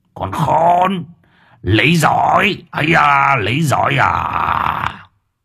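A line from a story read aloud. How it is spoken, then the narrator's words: Old man's shrill hiss. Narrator (Vietnamese): Lão rít lên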